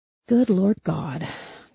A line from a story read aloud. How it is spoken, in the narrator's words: Charlie muttered